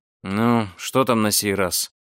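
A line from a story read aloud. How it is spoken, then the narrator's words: Sleepy and irritated. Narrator (Russian): сонно и раздраженно спросил путешественник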